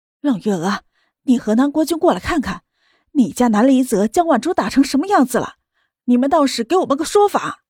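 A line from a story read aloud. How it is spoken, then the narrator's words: Loud clamoring. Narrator (Chinese): 汪兰却叫嚷了起来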